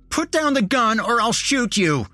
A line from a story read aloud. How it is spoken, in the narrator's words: Nick yelled at me